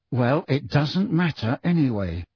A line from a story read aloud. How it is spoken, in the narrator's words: said Harry through gritted teeth